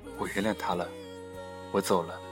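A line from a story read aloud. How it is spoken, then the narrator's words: Smiling. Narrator (Chinese): 微笑着说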